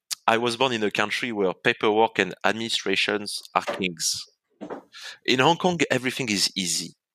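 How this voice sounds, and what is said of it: French accent. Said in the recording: “I was born in France, as people can say from my accent”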